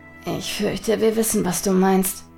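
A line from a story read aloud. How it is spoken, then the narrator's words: Murmuring. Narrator (German): murmelte Hotake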